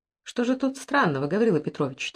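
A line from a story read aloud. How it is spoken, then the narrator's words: Quiet objection, young woman. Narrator (Russian): тихо возразила девушка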